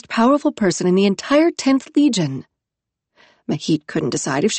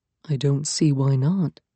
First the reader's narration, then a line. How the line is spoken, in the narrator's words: Yaskander murmured to her